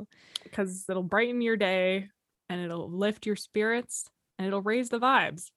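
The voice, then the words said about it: Put-on Canadian accent. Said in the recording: “I like that you got this Canadian accent happening suddenly.”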